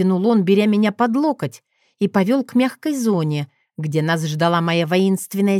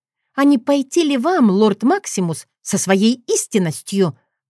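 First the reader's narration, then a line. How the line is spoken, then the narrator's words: Hiss. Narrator (Russian): прошипела я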